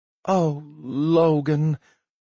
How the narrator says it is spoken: she sighed

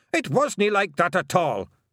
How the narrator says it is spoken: roared Rob Anybody

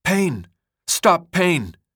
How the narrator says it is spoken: Raleigh gasped before dying

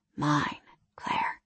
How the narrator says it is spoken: he whispered

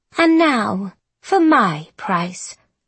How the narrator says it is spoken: Violet said, with a satisfied little purr

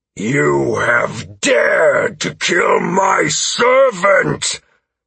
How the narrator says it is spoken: His voice boomed from the far side of the dais

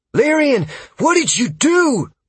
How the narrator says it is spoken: Freya shouted at me

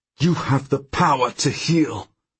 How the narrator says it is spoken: I say through gritted teeth

